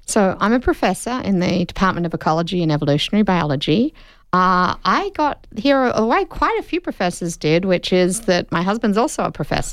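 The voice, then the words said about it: Australian accent. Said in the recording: “You got that wonderful Australian accent.”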